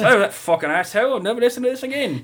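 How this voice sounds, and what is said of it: Silly accent imitating another person. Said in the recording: “silly accent”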